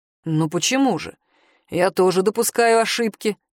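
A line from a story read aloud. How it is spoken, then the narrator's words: Cold curt remark. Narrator (Russian): холодно бросил мужчина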